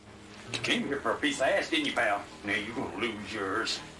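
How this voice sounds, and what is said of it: Comical exaggerated accent. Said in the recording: “I love the accents in this movie. ... Everybody has such a comical accent.”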